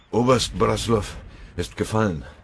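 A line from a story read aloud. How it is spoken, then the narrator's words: Gasping out. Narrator (German): stieß er keuchend hervor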